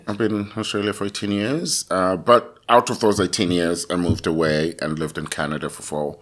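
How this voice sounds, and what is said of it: Attractive foreign accent. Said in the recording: “you have a very sexy accent, and people are going to be wondering where it's from”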